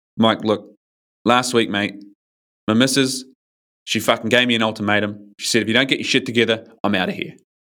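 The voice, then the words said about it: Strong Australian accent. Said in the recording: “really kind of strong Australian accent”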